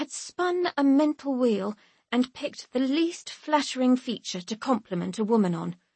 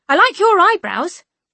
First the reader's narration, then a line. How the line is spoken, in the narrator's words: say, too loudly and without introduction